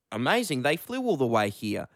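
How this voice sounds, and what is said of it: Put-on New Zealand accent. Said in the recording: “that was my New Zealand accent. ... Very good”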